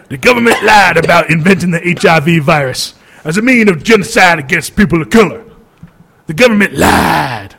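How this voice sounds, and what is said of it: Put-on Black American accent. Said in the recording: “I got to do this one in my best black voice.”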